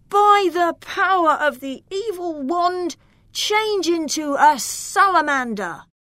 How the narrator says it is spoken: Loriano pointed the sorcerer's wand at him and shouted

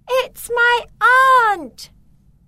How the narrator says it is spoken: Beatrice shouted

